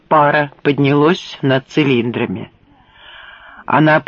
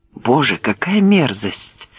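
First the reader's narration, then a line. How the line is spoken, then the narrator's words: Whispered. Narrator (Russian): прошептал Джексон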